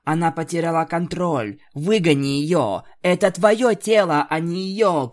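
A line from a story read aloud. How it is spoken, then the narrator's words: Shouting. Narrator (Russian): кричала Твайлайт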